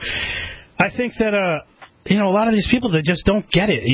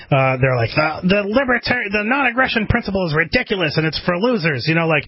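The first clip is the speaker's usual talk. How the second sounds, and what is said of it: Mocking impersonation of a fanboy. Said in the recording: “Is that your Cantwell impression? ... it's my Cantwell fanboy impersonation.”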